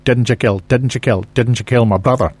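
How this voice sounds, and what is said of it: Put-on Scottish accent. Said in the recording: “trying to do it in a Scottish accent.”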